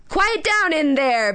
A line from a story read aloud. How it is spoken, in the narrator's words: But he will occasionally yell like